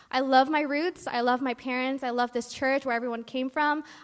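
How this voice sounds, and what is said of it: American accent. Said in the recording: “if you can tell by my accent, I'm actually not an Indo-born ... I was born here in America”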